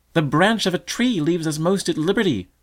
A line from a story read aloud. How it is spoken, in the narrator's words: cried a fifth